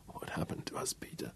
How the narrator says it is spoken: she lamented softly

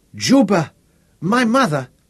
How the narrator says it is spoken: Tanasi cried

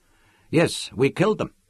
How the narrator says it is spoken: they said

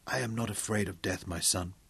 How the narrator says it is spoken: he whispered

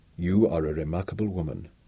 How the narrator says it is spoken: he said in a deep, quiet voice that she had not heard him use before

